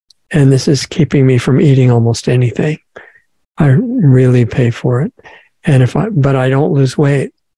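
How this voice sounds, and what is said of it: Voice acting up, strained. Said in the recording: “you can tell that my voice is trying to drive me crazy right now ... the reason that my voice is doing this is because I ate three little tiny pieces of fruit”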